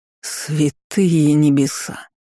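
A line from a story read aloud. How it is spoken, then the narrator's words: Growl. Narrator (Russian): рыкнул я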